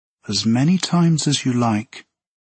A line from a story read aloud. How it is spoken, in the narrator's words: purred the presence